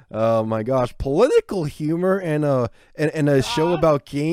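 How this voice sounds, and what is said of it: Usual voice. Nothing is said of it.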